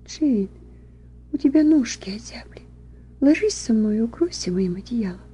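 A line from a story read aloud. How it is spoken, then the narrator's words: Exhausted whisper. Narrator (Russian): Элен в полном изнеможении шепнула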